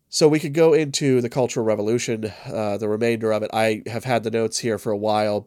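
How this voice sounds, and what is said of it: Congested, stuffed-up voice. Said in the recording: “I've been dealing with some pretty bad hay fever. You can probably hear it in my voice. I'm pretty stuffed up.”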